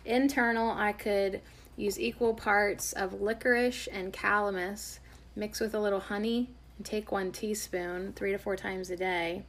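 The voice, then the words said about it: Hoarse, scratchy voice. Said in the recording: “my scratchy hoarse throat. I do sound kind of hoarse, don't I?”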